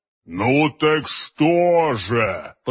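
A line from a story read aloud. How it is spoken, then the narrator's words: Giant's booming drone. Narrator (Russian): прогудел великан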